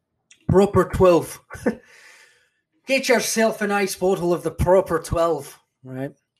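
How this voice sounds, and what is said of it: Bad put-on Irish accent. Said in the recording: “Probably a horrible Irish accent, I apologize.”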